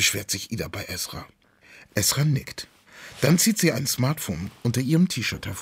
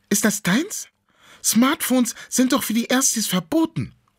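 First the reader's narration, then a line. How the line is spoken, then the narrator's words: Astonished exclamation. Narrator (German): ruft Ida erstaunt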